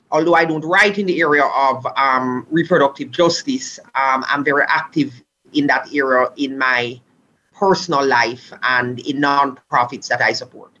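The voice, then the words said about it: Caribbean accent. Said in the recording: “as you can tell from my accent, my native Caribbean.”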